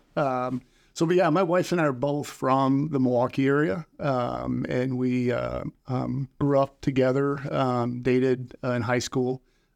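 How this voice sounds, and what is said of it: Northern Midwestern American accent. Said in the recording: “they kind of maybe pick up on that northern accent.”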